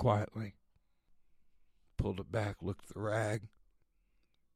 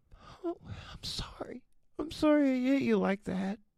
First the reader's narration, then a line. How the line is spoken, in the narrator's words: cried back